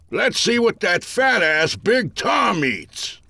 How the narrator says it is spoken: an old-timer cried

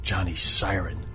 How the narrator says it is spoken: Max answered grimly

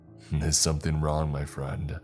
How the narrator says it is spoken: he chuckled

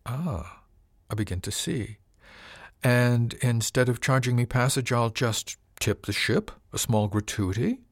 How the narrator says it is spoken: His tone suggested that he thought this a capital idea

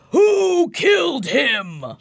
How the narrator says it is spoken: he roars

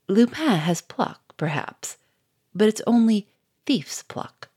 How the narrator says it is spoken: He paused and said in a clear, sneering voice

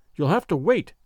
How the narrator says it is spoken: the blacksmith answered

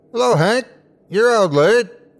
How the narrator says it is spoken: A figure standing in the yard yelled

